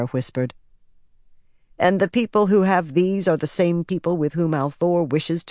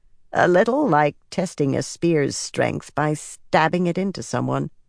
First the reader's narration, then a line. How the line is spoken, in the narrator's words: she muttered